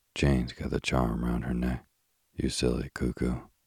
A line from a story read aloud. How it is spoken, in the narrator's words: Cyril hoarsely whispered